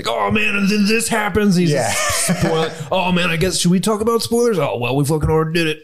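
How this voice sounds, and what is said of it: Imitates another person's voice. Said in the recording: “That's a good Kevin Smith. That's a good Kevin Smith impersonation for sure.”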